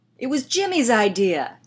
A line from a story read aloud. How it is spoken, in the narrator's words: Steve yelled